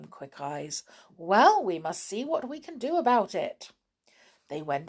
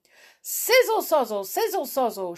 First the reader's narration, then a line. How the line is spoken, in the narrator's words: shouted the fire